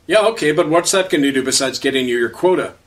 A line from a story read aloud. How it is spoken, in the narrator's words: answered Frank